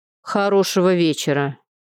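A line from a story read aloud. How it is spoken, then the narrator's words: Sarcastic remark. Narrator (Russian): язвительно бросил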